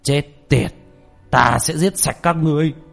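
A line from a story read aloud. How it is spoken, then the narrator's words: Furious loud shout. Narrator (Vietnamese): Thiên Long đạo nhân hét to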